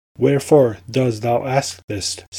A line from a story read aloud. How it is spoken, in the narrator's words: said the sultan